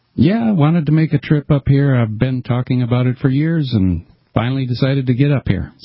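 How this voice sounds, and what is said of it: Pleasant radio-style voice. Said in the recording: “You got a good radio voice, man. You've got a nice sound.”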